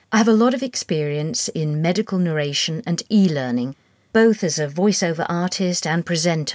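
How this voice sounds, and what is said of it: Neutral British accent. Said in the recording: “I have a neutral British accent”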